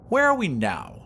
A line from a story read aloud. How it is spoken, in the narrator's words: asked Vashti haughtily